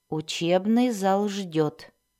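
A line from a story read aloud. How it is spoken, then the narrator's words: Calm. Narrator (Russian): спокойно произнес Дзирт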